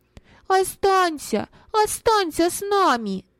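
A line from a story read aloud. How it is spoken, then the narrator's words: Children shouting in unison. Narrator (Russian): дети в один голос закричали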